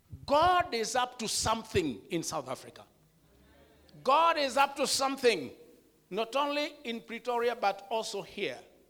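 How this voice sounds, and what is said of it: Kenyan accent, not South African. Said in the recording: “Please accept my pronunciations and my accent, because I am not from South Africa ... I'm from a Kikuyu tribe in Kenya”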